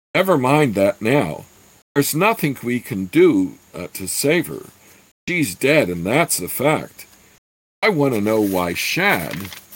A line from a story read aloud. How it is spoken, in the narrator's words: cried when he saw the body